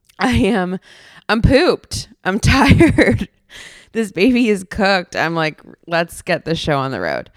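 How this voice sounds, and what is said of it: Hoarse voice. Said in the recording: “my voice is a little hoarse this week. I think you can tell.”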